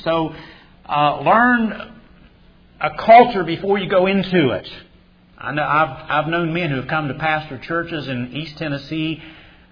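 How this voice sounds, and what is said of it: Appalachian West Virginian accent. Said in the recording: “they don't talk like West Virginians anymore. They knew that they could not keep that accent ... But I kept my accent”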